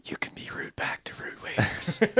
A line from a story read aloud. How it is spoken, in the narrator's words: whisper